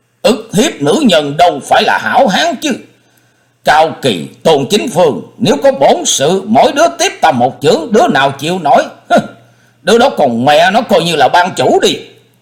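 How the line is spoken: Loud angry voice. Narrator (Vietnamese): Hắn động nộ, lớn tiếng nói

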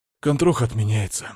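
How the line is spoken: Sighing. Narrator (Russian): вздохнул я

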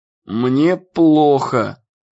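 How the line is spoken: Groan. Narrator (Russian): застонал Иэн

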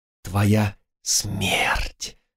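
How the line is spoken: Hissing. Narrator (Russian): снова раздалось шипение

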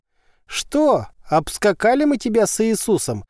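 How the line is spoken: Ghostly shrieking. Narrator (Russian): визжала эта фантомная версия

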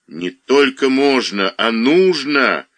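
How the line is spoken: Forceful shout. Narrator (Russian): выкрикнул он с силой

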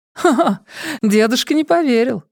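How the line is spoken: Laughing. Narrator (Russian): рассмеялась София

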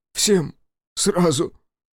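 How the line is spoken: Dejected, funereal voice. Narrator (Russian): упавшим голосом сообщил председатель, будто крышку на гроб положил

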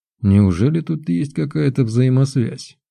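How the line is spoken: Thoughtful grumble. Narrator (Russian): задумчиво проворчал

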